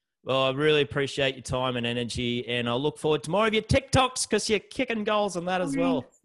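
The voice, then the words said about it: Thick country Australian accent. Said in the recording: “mine's thick as, mate, from Newey. Come on, country Australia.”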